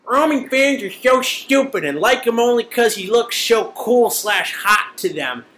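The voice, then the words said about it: Imitates another person's voice. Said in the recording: “put on my best Mark voice”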